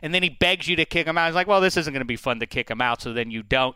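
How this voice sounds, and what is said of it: Usual voice. Nothing is said of it.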